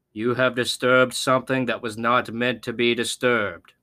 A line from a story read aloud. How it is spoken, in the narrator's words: he said, his voice echoing through the warehouse